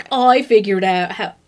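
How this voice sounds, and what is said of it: Poor put-on British accent. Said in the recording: “that was the worst British accent I've ever done. I pronounced that R like a dumb American.”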